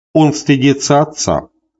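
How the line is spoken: Plain. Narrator (Russian): сказал Прим

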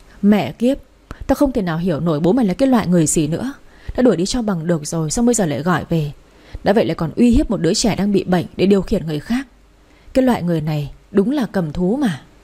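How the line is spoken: Angry muttered cursing. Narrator (Vietnamese): Chị My nghe xong thì tức tối lẩm bẩm chửi

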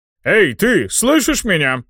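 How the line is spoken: Barking shout. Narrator (Russian): рявкнул Шардон

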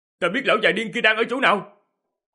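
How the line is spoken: Loud shout from behind. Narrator (Vietnamese): Diệp Hàm ở phía sau hét lớn

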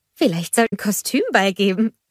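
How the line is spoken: Giggling suggestion. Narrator (German): schlug Anna kichernd vor

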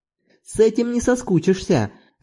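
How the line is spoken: Cheerful, whistling. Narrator (Russian): радостно сказал, присвистнув Зорбас

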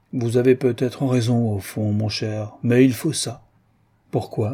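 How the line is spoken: Heavy tone. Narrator (French): de Treuil dit d'un ton pesant

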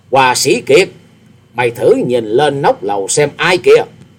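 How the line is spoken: Loud laughing voice. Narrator (Vietnamese): Hồng Trần Cuồng Sinh ha hả cười to, to tiếng nói

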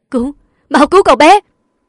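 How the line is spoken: Frantic screaming. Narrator (Vietnamese): Bố của cô cũng điên cuồng hét lên

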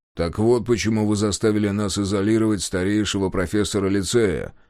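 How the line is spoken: Grumbling. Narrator (Russian): проворчал Мемнан

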